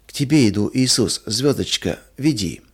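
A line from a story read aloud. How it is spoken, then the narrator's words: Incoherent sleepy whisper. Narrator (Russian): Маруся во сне бессвязно шептала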